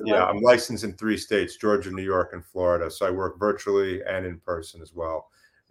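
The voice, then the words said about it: Slight New York accent. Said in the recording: “I heard a little bit of that New York accent. ... A little bit, yes. ... I still have a little bit. Semi-hidden, but not totally.”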